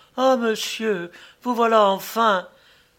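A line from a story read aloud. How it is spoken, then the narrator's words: Shouting. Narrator (French): s'écria Cécile Monnier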